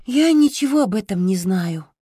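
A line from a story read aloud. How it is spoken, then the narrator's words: Sigh. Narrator (Russian): вздохнула Росток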